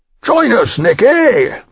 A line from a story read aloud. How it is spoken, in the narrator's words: bellowed Oliver